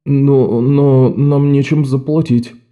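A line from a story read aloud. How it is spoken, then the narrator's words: Mumbling. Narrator (Russian): промямлил Оливер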